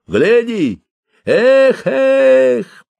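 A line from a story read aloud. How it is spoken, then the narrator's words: Tongue click, then shout. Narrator (Russian): прищелкнул языком и крикнул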